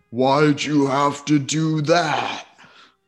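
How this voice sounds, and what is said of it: Resounding lion character voice. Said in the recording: “It says in a resounding voice”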